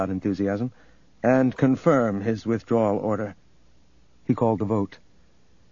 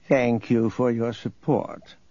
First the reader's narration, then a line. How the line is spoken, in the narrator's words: Nereus purred